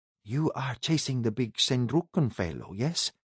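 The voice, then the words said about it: Woman's voice, faint Norge accent. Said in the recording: “she said with a faint Norge accent”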